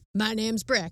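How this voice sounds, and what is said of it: Put-on southern cowboy accent. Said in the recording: “he always sort of has a southern accent”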